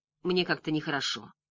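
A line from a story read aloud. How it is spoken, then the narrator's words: Muttered. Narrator (Russian): пробормотал он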